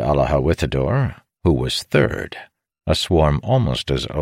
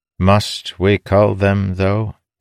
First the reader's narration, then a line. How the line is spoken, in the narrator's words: Nickley replied